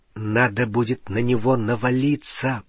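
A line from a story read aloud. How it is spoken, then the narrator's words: Whispering. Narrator (Russian): прошептал Гарри на ухо Рону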